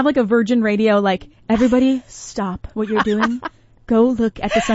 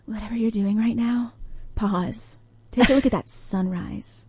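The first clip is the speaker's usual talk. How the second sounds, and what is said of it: Soft ASMR-style voice. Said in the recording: “Why did I get that voice? ... That was an ASMR voice.”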